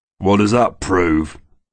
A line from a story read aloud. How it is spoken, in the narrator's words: the sheriff's man scoffed